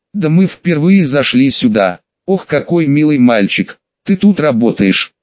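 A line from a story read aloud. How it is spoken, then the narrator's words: Giggling question. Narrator (Russian): Хихикая спросила Анжелика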